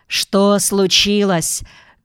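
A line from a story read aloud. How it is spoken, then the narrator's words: Shout. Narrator (Russian): крикнул кто-то из них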